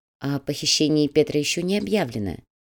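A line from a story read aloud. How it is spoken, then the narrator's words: Gentle reminder. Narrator (Russian): мягко напомнил Щеглов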